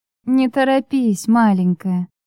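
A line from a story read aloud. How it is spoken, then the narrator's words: Tender female voice. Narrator (Russian): сказала я ласково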